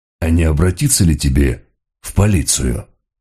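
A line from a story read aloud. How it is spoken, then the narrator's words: Soft question. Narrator (Russian): мягко спросил Мегре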